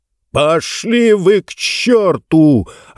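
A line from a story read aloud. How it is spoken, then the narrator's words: Yelling while bleeding. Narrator (Russian): орал он, обливаясь кровью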